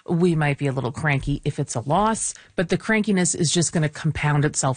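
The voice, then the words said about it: Raspy, tired voice. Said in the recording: “Raspy as well. ... A little raspy, a little tired”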